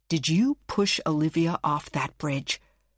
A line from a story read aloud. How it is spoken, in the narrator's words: His eyes blazed, his voice harsh